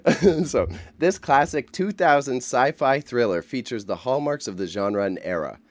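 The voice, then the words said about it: Radio announcer voice. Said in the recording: “can do my radio voice”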